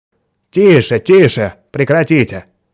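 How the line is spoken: Loud interjection to stop quarrel. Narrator (Russian): громко вмешался Дэвид Браун, чтобы остановить ссору коллег из Восточной Европы

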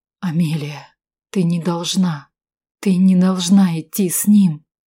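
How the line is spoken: Hissed angrily. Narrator (Russian): Эдвард Валкер прошипел, злобно глядя мне в лицо

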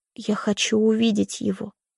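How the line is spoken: Trembling whisper. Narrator (Russian): произношу дрожащим шепотом

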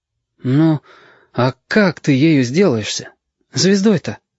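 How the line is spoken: Timid, hedgehog. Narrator (Russian): робко сказал ежики

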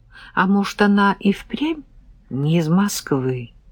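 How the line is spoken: Thoughtful drawl. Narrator (Russian): задумчиво протянула

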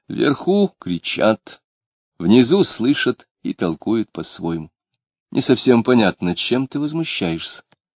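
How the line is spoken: Quiet. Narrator (Russian): она тихонько добавила

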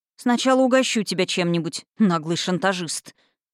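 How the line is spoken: Through gritted teeth. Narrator (Russian): сквозь зубы процедила я

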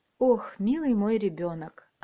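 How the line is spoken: Deep sigh. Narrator (Russian): она глубоко вздохнула

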